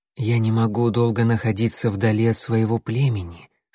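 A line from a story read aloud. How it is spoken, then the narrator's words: Calm explanation. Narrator (Russian): спокойно объяснила синяя звезда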